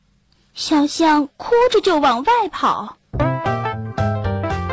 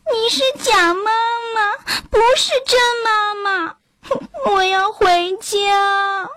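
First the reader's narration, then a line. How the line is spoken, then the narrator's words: Crying. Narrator (Chinese): 小象一咧嘴，哭了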